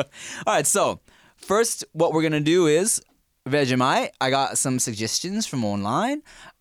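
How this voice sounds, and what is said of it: Put-on accent, fairly decent. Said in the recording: “You're actually not that bad at that accent.”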